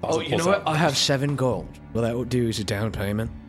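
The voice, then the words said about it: Sudden put-on accent. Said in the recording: “My accent changed. ... That was strange.”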